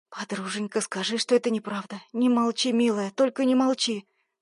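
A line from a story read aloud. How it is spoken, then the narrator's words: Whisper. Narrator (Russian): Шептала Карина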